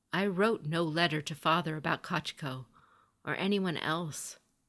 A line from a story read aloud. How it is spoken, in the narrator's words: Hotaru said